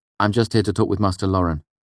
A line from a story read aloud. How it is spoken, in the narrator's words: I said quickly